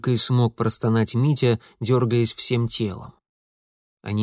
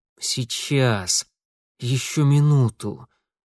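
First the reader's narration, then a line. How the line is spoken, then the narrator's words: Strained through gritted teeth, in pain. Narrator (Russian): сквозь зубы выдавил Митя … выбитые болью слезы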